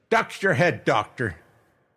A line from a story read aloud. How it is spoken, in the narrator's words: the captain shout